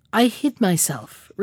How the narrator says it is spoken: replied the Stargazer quietly

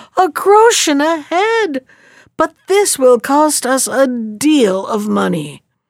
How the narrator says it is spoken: the people of Hamel, they too exclaimed

